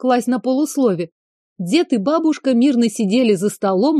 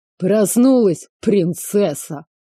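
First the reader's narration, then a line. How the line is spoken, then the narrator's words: Snort, old man. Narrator (Russian): фыркнул дед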